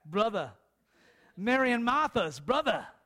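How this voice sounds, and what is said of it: Boston accent. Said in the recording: “I got my Bostonian accent back.”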